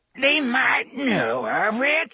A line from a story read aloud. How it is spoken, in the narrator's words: she whined